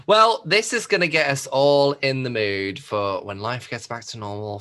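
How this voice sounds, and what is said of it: Polished radio presenter voice. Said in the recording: “you've got the good radio voice for it.”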